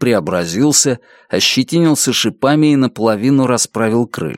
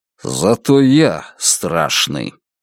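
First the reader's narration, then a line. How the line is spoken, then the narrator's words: Frightened growl. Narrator (Russian): Испуганно зарычав, Нобент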